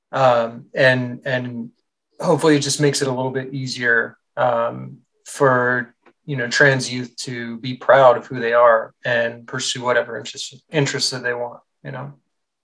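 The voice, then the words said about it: Emotional, teary voice. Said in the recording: “I'm getting a little teary-eyed.”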